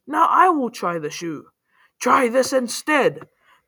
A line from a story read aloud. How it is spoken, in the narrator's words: Then up came sister number two, who yelled